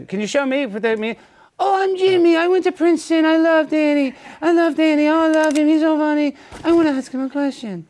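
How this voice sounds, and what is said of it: Imitates another person's voice. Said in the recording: “my Jimmy impression”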